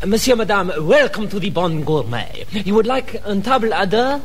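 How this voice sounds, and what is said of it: Exaggerated French accent. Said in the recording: “do stop putting on that ridiculous regional accent. ... Did you notice the revolting way he pronounced it?”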